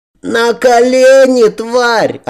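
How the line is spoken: Boy yelling. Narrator (Russian): орал мальчишка

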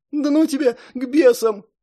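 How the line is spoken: Sobbing. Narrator (Russian): Розмари всхлипнула

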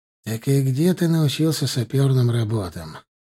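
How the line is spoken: Gloomy question. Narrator (Russian): мрачно спросил меня Рюмшин

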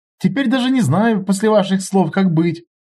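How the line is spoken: Laughing boss. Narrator (Russian): рассмеялся шеф

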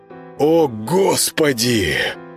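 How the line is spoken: Admiring breathless exclamation. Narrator (Russian): восхищенно выдохнул Володаров

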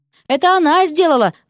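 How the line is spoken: Shrill squeal. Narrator (Russian): взвизгнул кто-то из чаровниц

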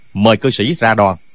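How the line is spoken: Smiling polite invitation. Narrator (Vietnamese): Không Kiến đại sư mỉm cười nói với ta

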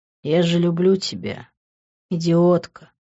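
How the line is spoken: Tender, to sleeping girl. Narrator (Russian): нежно сказал я спящей на моих руках девушке

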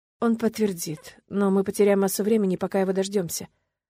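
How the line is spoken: Sighing. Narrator (Russian): вздохнула я

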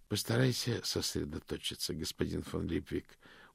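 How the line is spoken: Tired. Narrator (Russian): устало сказал ветеринарий

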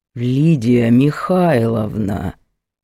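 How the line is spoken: Icy hiss, man. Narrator (Russian): ледяным тоном прошипел мужик

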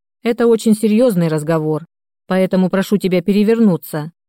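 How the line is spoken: Stern. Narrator (Russian): Даниил строго произнес

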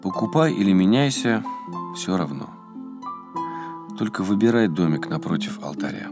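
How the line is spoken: Tired reply. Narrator (Russian): Отец Иоанн устало ответил ему

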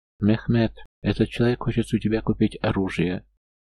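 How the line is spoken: Grunt, question in local dialect. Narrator (Russian): хмыкнул и спросил на местном наречии

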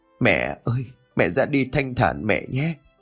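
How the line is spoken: Tender murmured farewell. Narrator (Vietnamese): Ông Cầu thủ thỉ nói lời từ biệt

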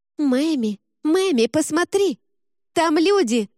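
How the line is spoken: Shrieking. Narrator (Russian): завопила она

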